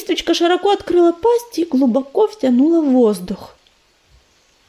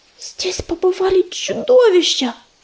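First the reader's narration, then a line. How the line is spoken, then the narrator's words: Whispered. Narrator (Russian): прошептала она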